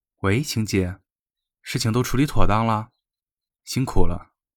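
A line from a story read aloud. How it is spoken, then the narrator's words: Flat, calm. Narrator (Chinese): 他淡淡的道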